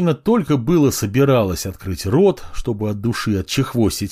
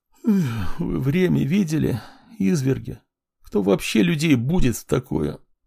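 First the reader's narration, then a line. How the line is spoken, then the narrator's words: Displeased mumbling. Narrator (Russian): Женщина недовольно забормотала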